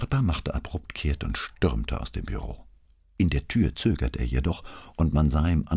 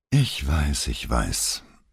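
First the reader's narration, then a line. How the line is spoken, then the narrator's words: Exasperated sigh. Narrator (German): Elettra stieß einen entnervten Seufzer aus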